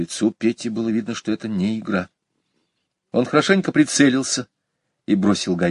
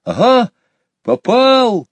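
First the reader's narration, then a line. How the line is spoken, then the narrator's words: Joyful shout. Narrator (Russian): радостно крикнул Петя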